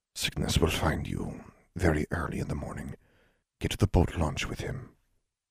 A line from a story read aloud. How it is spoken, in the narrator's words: whispered